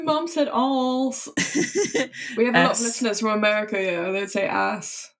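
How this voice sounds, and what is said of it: Thick British accent. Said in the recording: “I've got too much of a thick British accent.”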